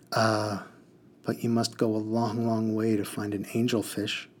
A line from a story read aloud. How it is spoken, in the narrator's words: he sighed